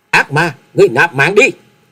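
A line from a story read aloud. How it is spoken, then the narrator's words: Shouting. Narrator (Vietnamese): hét to lên một tiếng nói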